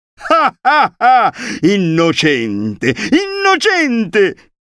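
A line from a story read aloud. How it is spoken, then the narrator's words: Woman shouting, brazen terrible laugh. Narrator (Italian): gridò la signora, con una risata sfrontata e terribile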